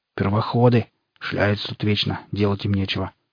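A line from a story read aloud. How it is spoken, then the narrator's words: Grumbling under breath. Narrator (Russian): проворчал себе под нос Барбарис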